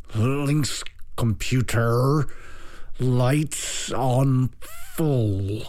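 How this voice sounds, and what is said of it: Strained neutral American accent. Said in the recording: “strained himself to mimic a neutral American accent”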